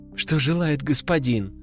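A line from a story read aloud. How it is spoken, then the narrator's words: Calm, trembling at end. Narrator (Russian): спокойно проговорила она, хотя в конце ее голос все же дрогнул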